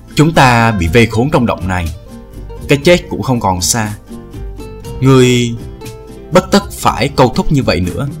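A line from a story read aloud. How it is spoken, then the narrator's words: Sighing voice. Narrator (Vietnamese): một tiếng thở dài nói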